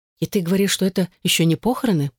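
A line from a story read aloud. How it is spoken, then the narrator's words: Amazed whisper in ear. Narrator (Russian): прошептала изумленная Элизабет на ухо Эшлинг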